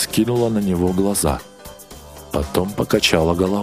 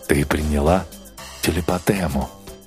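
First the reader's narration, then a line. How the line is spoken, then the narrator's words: Gentle repetition. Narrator (Russian): мягко повторил Пауэлл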